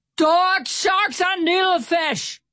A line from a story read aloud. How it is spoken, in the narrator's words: Stout Sam shouted